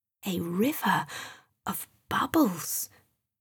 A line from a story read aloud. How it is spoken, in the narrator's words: said quietly to himself